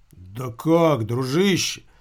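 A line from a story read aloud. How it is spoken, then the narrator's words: Reproachful exclamation, uncle. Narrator (Russian): с укором воскликнул дядя Сережа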